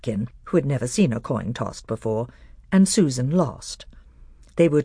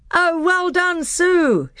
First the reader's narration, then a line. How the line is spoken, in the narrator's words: shouted the other children